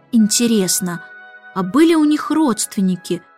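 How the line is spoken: Plain. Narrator (Russian): спросил Майкл

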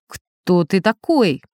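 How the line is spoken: Menacing. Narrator (Russian): грозно сказал теоретик

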